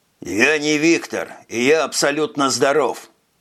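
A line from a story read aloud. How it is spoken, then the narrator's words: Muttered. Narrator (Russian): пробурчал Скабет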